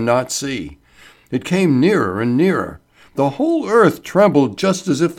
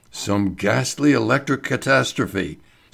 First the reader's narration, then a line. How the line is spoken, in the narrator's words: Sir George Egerton murmured